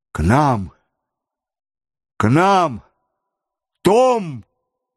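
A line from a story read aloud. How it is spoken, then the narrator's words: Thunderous shout. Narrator (Russian): громовым голосом крикнул Джон Манглс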